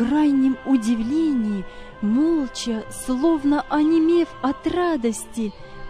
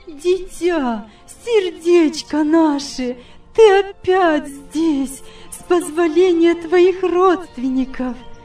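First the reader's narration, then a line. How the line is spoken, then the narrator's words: Exclaimed. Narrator (Russian): воскликнула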